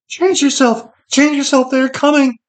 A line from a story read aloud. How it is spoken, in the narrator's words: Sherrod shrieked